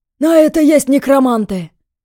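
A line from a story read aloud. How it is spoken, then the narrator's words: Barked shout. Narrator (Russian): рявкнул мужчина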